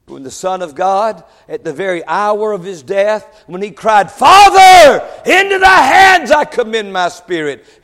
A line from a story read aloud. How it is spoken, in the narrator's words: He cried it with a loud voice